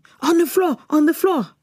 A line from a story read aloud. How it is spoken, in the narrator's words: He started yelling